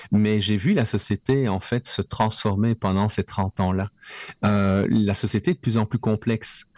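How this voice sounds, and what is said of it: Belgian French accent. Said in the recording (French): “Tu l'entends avec mon accent. Je suis né en Belgique.”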